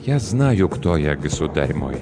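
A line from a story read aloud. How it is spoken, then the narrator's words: Gentle. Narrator (Russian): мягко произнес Ланселот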